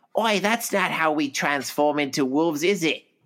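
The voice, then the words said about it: Put-on Australian accent. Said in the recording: “That's my Australian accent. ... Not too shabby.”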